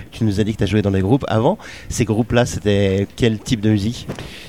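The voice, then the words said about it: Swiss Vaudois French accent. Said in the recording (French): “moi je suis vaudois. Tu l'entends certainement déjà dans mon accent là.”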